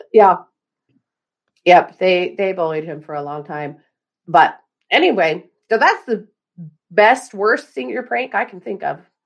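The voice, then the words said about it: Hoarse voice. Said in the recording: “I'm still hoarse.”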